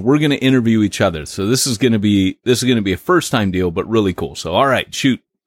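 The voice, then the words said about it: Textured radio-style voice. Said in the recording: “you have a voice that is like a radio voice ... You have this rather a texture to your voice ... you have a radio voice.”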